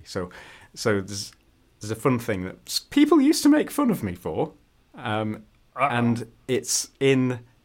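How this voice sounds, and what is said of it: Posh Northern English accent. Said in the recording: “UK accent. Northern England, basically. I would say the closest it resembles is kind of like a posh Sheffield accent. Because I sound very much like my dad, and he's from Sheffield.”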